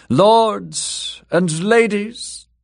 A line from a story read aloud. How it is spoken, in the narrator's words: Circe called out loudly